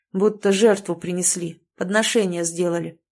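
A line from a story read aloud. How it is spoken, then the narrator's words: Plain. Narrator (Russian): сказал Семен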